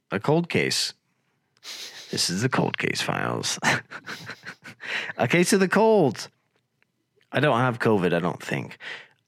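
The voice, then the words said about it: Low, rough, congested voice. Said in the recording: “I sound like a freaking announcer from a high school football field, that's because I have a case of the colds... my voice is silky smooth and beautifully low”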